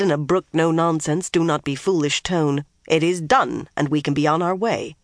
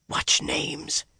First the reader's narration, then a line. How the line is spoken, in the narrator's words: Swan whispered sharply